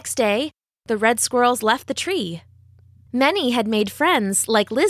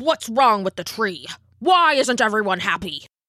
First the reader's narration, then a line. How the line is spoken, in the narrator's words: snapped the elder